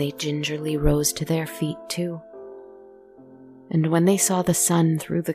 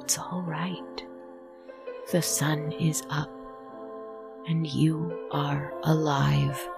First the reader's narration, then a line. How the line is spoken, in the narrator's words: the host gently whispered